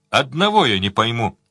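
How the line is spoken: Plain. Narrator (Russian): сказал Сварог Леверлину

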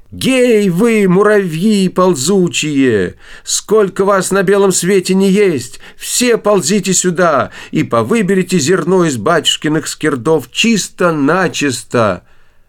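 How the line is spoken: Loud shouting. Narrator (Russian): закричала громким голосом

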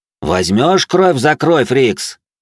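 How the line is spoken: Shout. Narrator (Russian): крикнул я ему

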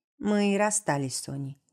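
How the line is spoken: Calm. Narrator (Russian): говорит спокойно

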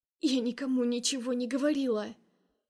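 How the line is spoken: Hoarse, barely audible. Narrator (Russian): Сиплю еле слышно

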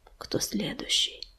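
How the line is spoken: Whisper. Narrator (Russian): прошептал Огнезвезд

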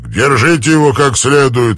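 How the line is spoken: Barking. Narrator (Russian): рявкнул Армстронг

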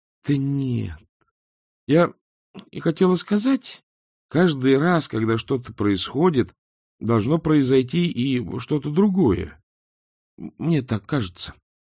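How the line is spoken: Uncertain. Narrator (Russian): неуверенно произнесла Эск

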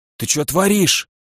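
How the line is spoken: Hoarse, pinned down. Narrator (Russian): прохрипел подмятый под меня рептилоид

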